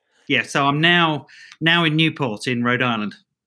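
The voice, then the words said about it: Mixed British-Australian accent. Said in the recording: “not a Rhode Island accent ... Australian but live a lot in uh, in the UK ... It's kind of a an in between ... just got a bizarre accent”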